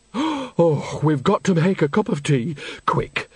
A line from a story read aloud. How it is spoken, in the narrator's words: gasped Nanny, with relief